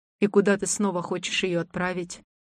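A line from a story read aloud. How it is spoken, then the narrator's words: Old man, somewhat calmer question. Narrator (Russian): поинтересовался уже чуть более спокойно дед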